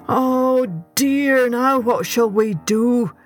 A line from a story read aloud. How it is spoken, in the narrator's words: wailed Mr